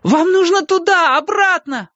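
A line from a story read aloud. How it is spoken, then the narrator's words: Yelling. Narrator (Russian): вопил я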